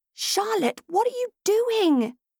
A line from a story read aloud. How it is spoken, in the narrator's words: exclaimed